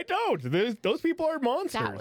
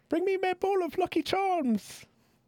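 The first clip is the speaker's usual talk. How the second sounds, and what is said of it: Bad put-on Irish accent. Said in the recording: “I have an accent. You want me to do my accent to the people from there? ... That was bad. ... It's Ireland.”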